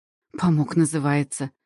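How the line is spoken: Snorting woman. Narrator (Russian): фыркнула хозяйка приюта

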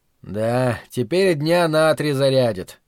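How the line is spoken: Thoughtful drawl. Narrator (Russian): глубокомысленно протянул Давин

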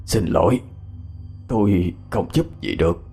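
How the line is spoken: Hoarse. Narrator (Vietnamese): Giọng ông ta khàn khàn

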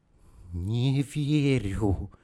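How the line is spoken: Breathy exhale. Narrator (Russian): Выдохнула она

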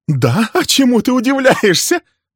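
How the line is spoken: Angry laugh. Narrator (Russian): зло рассмеялась

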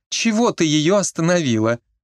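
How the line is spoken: Breathless old healer. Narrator (Russian): пыталась вздохнуть знахарка

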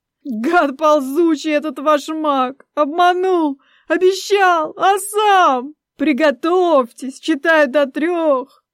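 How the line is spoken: Sobbing mimicry. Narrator (Russian): Передразнивала злокозненного обманщика и кривилась от рыданий

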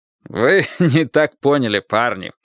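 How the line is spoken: Hearty laughter. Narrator (Russian): от души рассмеялся Мейсон

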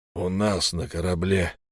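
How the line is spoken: Hoarse correction, captain. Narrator (Russian): хрипло поправил его капитан

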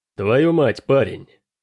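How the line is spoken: Snorting. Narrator (Russian): фыркнул Дрейк

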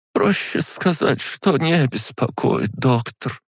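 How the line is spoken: Sighing. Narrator (Russian): вздохнула

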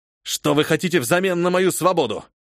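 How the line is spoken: Captive, abruptly changed tone. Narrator (Russian): Резко сменив интонацию, спросил пленник

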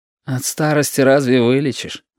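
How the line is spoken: Sighed. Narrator (Russian): вздохнул Яшка

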